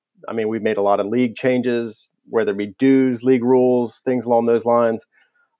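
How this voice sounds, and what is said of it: Raw, hoarse voice. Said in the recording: “my voice is a little raw right now ... I've got a cough that's never gone away”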